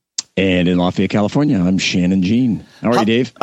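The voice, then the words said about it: Hoarse, strained voice. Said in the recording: “My voice is a little torn up from hanging out with Axel and the Guns N' Roses guys last night ... I screamed so much”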